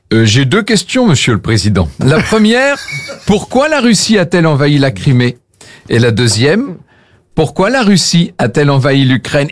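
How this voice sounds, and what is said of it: Put-on Russian accent. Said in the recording (French): “accent dans, russe”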